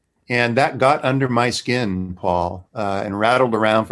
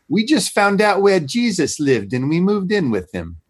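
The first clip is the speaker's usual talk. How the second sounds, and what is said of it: Put-on New Zealand accent. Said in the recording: “this is my best New Zealand accent”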